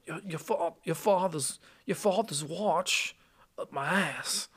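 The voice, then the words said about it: Christopher Walken impression. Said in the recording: “your best impression of Christopher Walken's watch”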